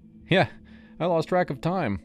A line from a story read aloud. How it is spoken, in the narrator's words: I admitted, laughing it off